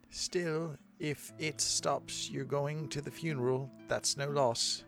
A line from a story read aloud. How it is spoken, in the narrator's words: she murmured